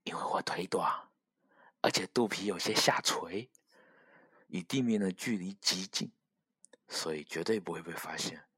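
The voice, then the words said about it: Quiet, hushed voice. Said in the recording (Chinese): “一个狗小声的说”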